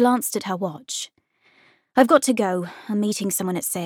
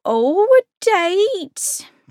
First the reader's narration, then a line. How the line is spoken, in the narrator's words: Penny asked excitedly